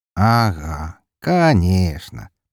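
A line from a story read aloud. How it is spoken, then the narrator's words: Ironic drawl. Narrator (Russian): протянул я с иронией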